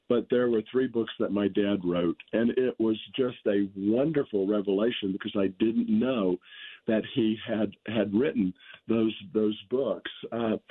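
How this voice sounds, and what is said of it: Slightly hoarse, strained voice. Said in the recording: “forgive my voice. I've got a little laryngitis developing from a cold”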